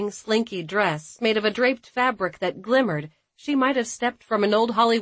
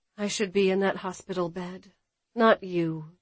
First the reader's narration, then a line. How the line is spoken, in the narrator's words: murmured